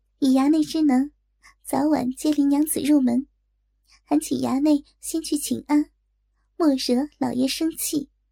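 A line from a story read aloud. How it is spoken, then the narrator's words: Suppressed smile. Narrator (Chinese): 昭儿抿嘴笑道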